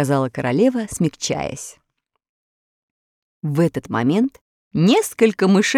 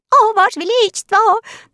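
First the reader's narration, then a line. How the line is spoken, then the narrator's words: Overlapping squeaky voices. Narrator (Russian): наперебой запищали они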